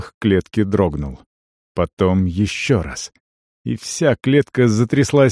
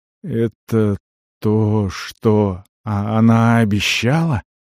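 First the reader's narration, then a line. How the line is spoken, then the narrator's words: Unsteady voice, question. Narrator (Russian): спросил неровным голосом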